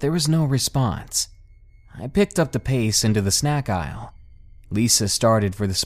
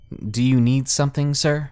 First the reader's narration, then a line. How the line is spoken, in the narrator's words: trying to hide my nerves, and I stammered